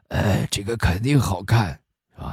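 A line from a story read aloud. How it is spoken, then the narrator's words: Hoarse male voice. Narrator (Chinese): 其中一个嗓子沙哑的就说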